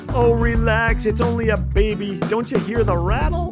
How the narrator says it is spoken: His companion laughed

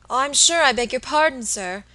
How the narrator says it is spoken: exclaimed the little woman, seeing that she had made some awful mistake

